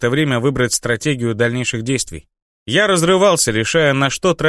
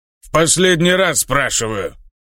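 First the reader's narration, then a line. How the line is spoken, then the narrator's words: Orc's growl. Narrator (Russian): прорычал орк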